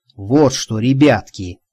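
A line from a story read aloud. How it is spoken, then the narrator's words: Quiet. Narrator (Russian): негромко произнес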